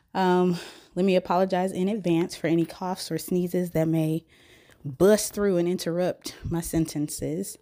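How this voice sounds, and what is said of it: Sick, unwell-sounding voice. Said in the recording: “I'm sure you probably can hear it in my voice, but at the current moment, I'm feeling all kind of unwell”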